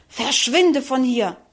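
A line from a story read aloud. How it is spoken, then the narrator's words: Furious hiss. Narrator (German): fauchte wütend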